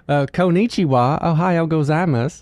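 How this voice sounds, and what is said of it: Japanese in twangy Southern accent. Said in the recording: “a little bit of a Southern accent to it ... it was a little twangy”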